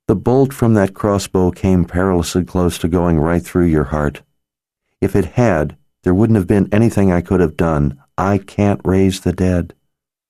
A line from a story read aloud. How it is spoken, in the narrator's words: Nikki said in a calm voice, obviously meant to settle him down